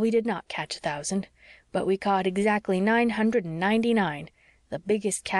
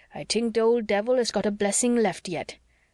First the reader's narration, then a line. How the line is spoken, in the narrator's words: growled Andrew